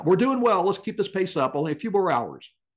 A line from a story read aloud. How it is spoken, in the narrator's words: John Paul called out